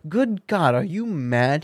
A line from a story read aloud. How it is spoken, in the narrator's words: he cried aghast